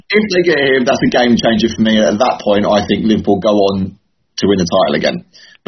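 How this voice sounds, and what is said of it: Northampton English accent. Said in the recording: “It's your Northamptonian accent.”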